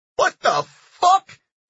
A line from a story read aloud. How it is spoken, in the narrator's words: he cried out again